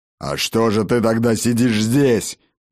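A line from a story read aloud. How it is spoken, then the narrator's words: Growling. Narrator (Russian): зарычал Ракот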